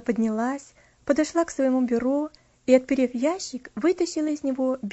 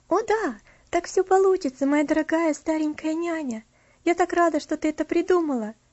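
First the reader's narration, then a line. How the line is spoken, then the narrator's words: Joyful. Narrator (Russian): радостно проговорила Элси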